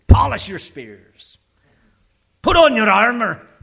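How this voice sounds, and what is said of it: Put-on Scottish accent. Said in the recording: “I should do this in a Scottish accent, right?”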